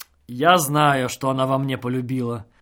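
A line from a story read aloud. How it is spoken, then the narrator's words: Mumbling. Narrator (Russian): забормотал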